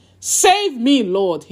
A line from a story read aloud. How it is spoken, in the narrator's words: he shouted